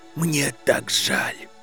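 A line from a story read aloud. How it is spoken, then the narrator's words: Whisper. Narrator (Russian): прошептал он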